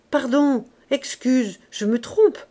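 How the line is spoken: Stammering. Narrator (French): balbutia-t-il

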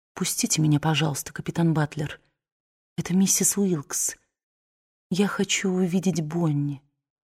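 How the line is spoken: Quiet, summoning courage. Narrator (Russian): призвав на помощь все свое мужество, тихо сказала

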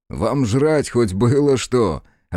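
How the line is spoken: Laughing loudly. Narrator (Russian): расхохотался Ергерт

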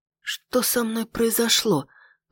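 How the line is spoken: Whisper. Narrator (Russian): прошептала

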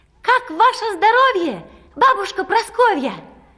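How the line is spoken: Shouting into ear. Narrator (Russian): вдруг ей прямо в ухо подружки закричали

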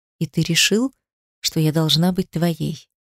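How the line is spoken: Quiet. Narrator (Russian): сказала тихо

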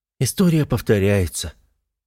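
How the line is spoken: Thoughtful reply. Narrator (Russian): задумчиво отвечает Эрика

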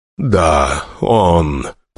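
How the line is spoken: Hoarse rasp. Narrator (Russian): прохрипел Бурцев, словно у него до сих пор были связки

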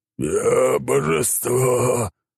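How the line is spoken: Hoarse croak. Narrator (Russian): прохрипел Драклин

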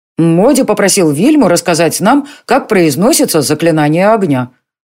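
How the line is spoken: Plain, boy. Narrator (Russian): сказал мальчишка

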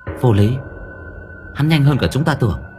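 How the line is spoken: Female voice speaking. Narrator (Vietnamese): Một bóng đen nói với giọng nữ

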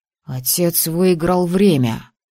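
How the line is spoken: Breathless exhale. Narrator (Russian): выдохнул Тор

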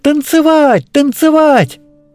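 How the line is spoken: Cheerful girls shouting. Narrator (Russian): Весело закричали девочки, все три ярые танцорки

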